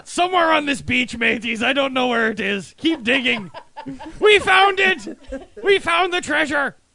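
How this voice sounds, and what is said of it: Exaggerated pirate voice. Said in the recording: “You sound like a retarded Blackbeard”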